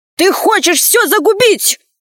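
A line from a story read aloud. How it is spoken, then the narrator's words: Shouting. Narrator (Russian): закричал он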